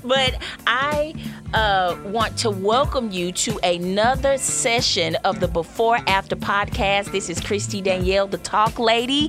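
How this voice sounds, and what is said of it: Country accent. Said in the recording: “I know I got like a country accent probably”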